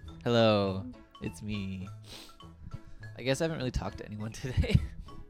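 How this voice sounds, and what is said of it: Hoarse, strained voice. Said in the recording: “lose my voice”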